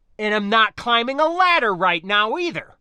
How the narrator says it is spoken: I snapped

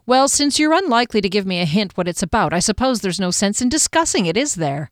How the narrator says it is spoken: He laughed

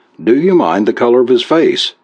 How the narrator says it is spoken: he blurted

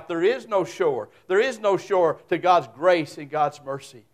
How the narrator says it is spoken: cried out

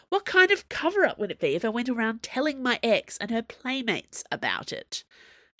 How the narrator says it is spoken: snapped

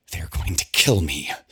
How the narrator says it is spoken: she hisses the words

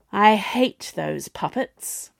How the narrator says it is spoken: sighed Juno

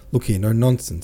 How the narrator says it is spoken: cried

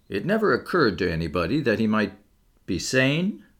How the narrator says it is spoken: The keeper permitted himself to laugh

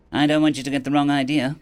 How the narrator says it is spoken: Grim said quickly

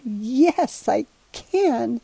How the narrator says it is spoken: he stammered

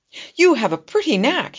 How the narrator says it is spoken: cried

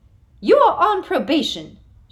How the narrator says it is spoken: shrieked Professor Umbridge

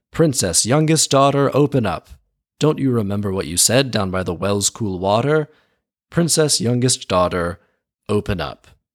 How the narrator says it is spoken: the frog cried out

